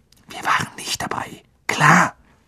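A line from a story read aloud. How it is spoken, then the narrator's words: Hissed. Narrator (German): zischelte Harry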